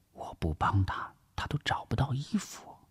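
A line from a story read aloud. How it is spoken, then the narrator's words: Whisper. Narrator (Chinese): 王碧奎悄声的耳语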